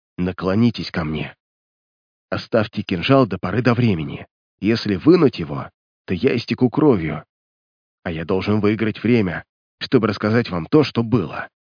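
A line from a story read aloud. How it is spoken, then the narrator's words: Weak whisper. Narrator (Russian): полковник слабо шепнул ему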